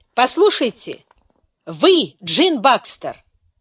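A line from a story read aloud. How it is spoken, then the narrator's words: Loud solemn declaration. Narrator (Russian): громко, почти торжественно заявил Фрэнк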